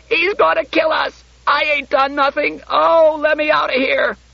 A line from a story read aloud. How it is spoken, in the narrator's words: In a sudden whirlpool of sobbing, she yelled